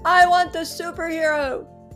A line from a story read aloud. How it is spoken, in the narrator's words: He yelled